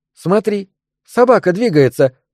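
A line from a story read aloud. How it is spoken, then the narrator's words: Exclamation. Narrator (Russian): воскликнула тогда Мэг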